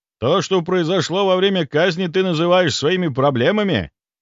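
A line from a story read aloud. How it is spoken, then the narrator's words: Barked. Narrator (Russian): рявкнул он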